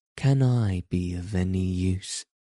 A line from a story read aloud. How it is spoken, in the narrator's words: as if saying timidly